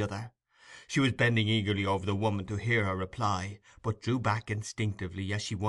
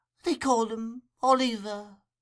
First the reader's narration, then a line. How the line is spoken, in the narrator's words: replied the woman feebly